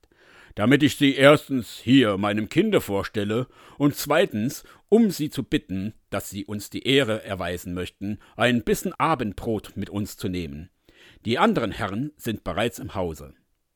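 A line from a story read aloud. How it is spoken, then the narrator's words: Official calling out. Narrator (German): rief der Amtsrat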